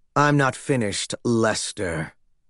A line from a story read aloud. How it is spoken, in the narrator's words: he snarled